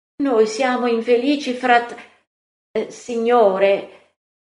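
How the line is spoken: Exclaimed. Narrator (Italian): Giacomo d'Alfeo esclama

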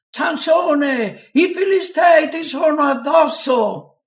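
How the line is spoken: Shouted. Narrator (Italian): gli gridò

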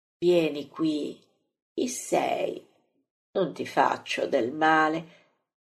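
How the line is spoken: Sweet, gentle. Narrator (Italian): lo dice così dolcemente

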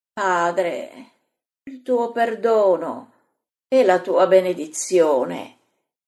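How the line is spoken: Daughter moaning. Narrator (Italian): La figlia geme

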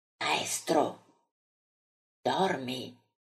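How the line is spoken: Quiet question. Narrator (Italian): chiede piano

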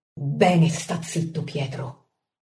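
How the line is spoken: Muttering through teeth. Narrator (Italian): borbotta Pietro fra i denti

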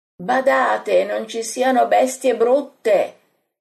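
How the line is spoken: Group shouting. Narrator (Italian): urlano gli altri

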